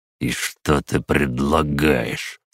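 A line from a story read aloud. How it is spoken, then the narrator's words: Asked through clenched teeth. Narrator (Russian): спросил Седов сквозь зубы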